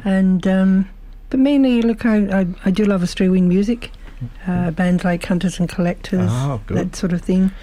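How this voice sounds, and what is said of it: Mixed Scottish-Irish-English accent. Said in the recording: “Beautiful accent. We love that Scottish accent ... it's something of a mixture ... a bit of a mongrel accent”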